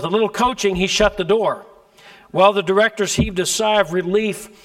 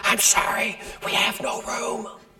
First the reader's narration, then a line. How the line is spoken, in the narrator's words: From backstage, a loud whisper could be heard